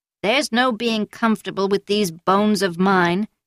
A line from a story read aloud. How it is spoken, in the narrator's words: the old woman grumbled